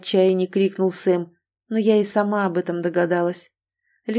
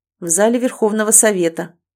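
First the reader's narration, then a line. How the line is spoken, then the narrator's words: Gloomy. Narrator (Russian): мрачно проговорил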